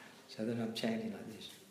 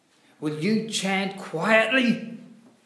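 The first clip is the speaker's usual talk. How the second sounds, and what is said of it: Angry yelling voice. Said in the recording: “yelled at me in a very angry voice, very angry”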